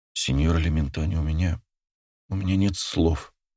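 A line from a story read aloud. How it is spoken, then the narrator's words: Choked mumble. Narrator (Russian): пробормотала Лаура с комком в горле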